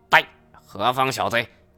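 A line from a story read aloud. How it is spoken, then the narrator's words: Stern shout. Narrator (Chinese): 还有一个声音喝道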